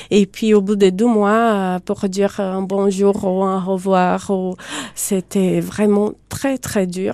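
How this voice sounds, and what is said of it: Slight foreign accent in French. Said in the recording (French): “Il y a juste une pointe d'accent, juste ce qu'il faut pour être jolie.”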